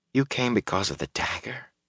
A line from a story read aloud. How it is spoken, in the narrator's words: Matt said quietly